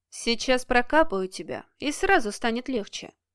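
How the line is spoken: Calm reply. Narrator (Russian): спокойно отозвался Денис

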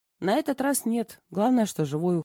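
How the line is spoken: Snorting male. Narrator (Russian): хмыкнул он

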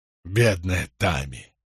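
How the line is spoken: Sorrowful exhale. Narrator (Russian): горестно выдохнул Джек

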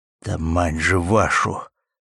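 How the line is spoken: Stunned muttering. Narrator (Russian): только и пробормотал пораженный подполковник

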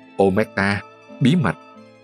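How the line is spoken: Mocking whisper. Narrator (Vietnamese): Ông trùm thì thầm giễu cợt

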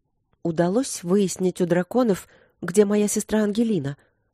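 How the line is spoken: Trembling voice. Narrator (Russian): спросила она дрогнувшим голосом

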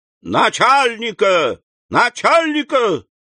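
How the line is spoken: Shouted. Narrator (Russian): в выступлении крикнул

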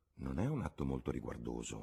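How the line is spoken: Murmured. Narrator (Italian): mormorò la voce di sua madre

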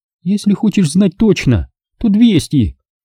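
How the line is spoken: Displeased exclamation. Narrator (Russian): Недовольно воскликнула она

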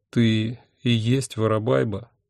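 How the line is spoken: Miserable voice. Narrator (Russian): несчастным голосом спросил я

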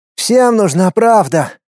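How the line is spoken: Irritated snort. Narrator (Russian): хмыкнул раздраженно граф

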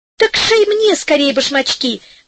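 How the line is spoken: Fairy exclaiming. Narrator (Russian): воскликнула фея

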